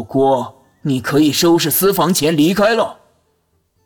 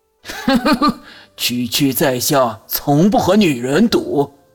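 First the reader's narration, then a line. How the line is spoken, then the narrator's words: Strange laugh. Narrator (Chinese): 江之琳怪笑一声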